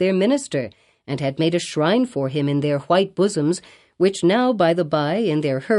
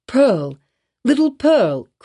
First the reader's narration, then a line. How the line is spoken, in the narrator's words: cried he, after a moment's pause